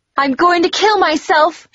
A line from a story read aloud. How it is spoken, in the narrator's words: she screamed